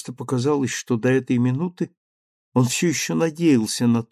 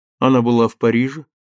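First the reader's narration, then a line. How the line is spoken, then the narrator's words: Plain. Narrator (Russian): спросил он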